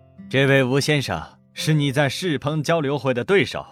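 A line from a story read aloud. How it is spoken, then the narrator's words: Explaining in Japanese. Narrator (Chinese): 川岛繁也 与身边的北冈会用岛国语解释道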